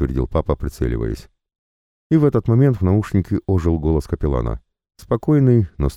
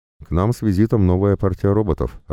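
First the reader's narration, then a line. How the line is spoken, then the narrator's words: Plain. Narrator (Russian): ответил тот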